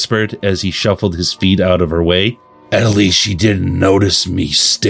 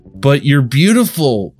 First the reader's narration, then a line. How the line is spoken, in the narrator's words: he blurted out